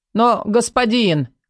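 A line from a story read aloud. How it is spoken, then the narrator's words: Mutter. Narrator (Russian): пробормотал мага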